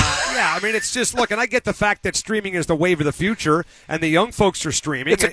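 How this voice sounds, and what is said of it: Usual voice. Nothing is said of it.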